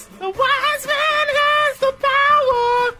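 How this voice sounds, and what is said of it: Singing in falsetto. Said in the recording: “Still waiting on the falsetto ... That was falsetto”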